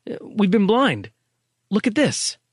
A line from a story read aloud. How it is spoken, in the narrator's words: he gasped